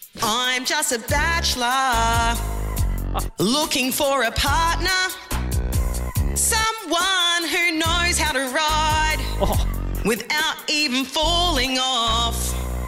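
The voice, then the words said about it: Australian accent singing R&B. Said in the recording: “let's see how the Aussie accent sounds with a bit of the R&B ... the vocals aren't 10 out of 10”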